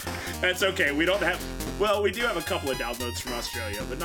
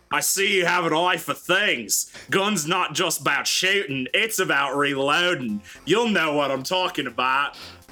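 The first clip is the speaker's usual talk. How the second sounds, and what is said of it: Put-on Australian accent. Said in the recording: “accent managed to insult the entire nation of Australia.”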